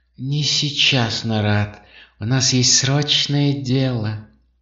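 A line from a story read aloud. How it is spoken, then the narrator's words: Barely audible. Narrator (Russian): Первый из харнов еле слышно сказал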